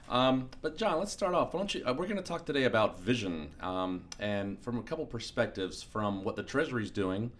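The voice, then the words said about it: Voice affected by a cold. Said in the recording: “A little bit of a cold there, so sorry about the voice”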